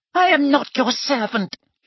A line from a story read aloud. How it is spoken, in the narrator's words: he squeaked